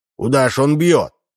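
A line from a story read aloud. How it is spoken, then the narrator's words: Shouting. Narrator (Russian): кричал Удалов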